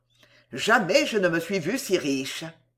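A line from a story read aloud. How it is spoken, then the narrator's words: Grumbling. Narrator (French): il grommela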